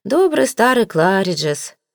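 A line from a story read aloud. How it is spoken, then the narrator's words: Sighing, uncle. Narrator (Russian): вздохнул дядя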